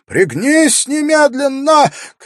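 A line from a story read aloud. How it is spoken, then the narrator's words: Shout. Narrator (Russian): крикнул ему Вакир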